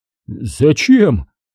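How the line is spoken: Frightened question. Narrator (Russian): испуганно поинтересовался фиксатый

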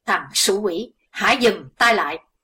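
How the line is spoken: Loud alarmed shout. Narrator (Vietnamese): thiếu giáo chủ âm ma biết sẽ có chuyện không lành xảy đến cho đồng bọn, liền quát to

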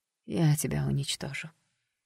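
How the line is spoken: Quiet, resolute threat. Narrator (Russian): пообещала вдруг Джесс тихо, поняв, что не хочет больше видеть свою вторую личность

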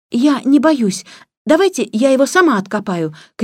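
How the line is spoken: Shout. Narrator (Russian): крикнула она

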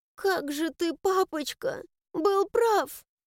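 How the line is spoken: Shaky breath, ending in sob. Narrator (Russian): Прерывисто выдохнула я, всхлипнув в конце фразы

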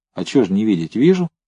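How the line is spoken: Calm. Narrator (Russian): спокойно отвечал Новиков

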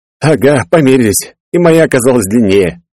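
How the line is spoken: Laughing. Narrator (Russian): рассмеялся я

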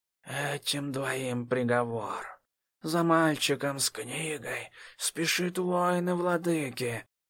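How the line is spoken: Barely audible whisper. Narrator (Russian): шепнула едва слышно

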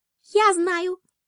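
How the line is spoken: Squeaky mouse voice. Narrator (Russian): пискнул мышонок

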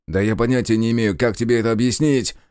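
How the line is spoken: Shouting. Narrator (Russian): закричал я

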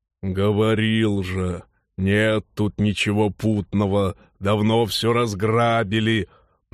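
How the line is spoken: Grumbling. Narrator (Russian): проворчал Норл

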